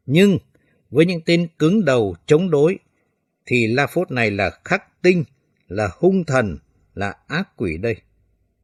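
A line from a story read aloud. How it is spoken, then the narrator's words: Harsh, menacing. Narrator (Vietnamese): hắn gằn giọng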